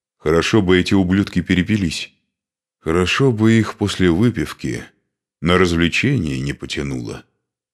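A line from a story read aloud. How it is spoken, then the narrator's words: Gloomy reply. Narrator (Russian): мрачно отозвался Машек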